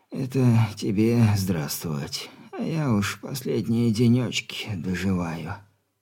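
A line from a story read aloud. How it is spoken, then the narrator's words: Wheezing, creaky old man. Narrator (Russian): тяжко дыша проскрипел старик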